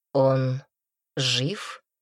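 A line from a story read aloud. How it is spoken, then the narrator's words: Quiet question. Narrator (Russian): тихо спросил Мадрид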